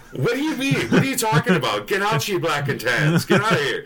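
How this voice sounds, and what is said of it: Deliberately bad put-on Irish accent. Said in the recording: “I did the shitty Irish accent again”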